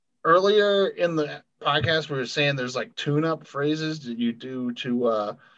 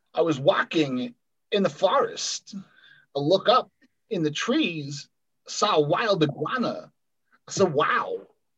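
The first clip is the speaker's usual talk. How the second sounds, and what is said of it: Imitates another person's voice. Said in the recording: “Here's the one I do for my Christopher Walken.”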